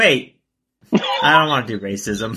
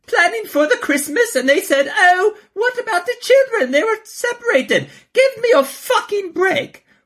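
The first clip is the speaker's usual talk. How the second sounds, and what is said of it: Put-on, unconvincing British accent. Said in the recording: “I'll give it a British accent. ... Was that British? ... I don't know what that was.”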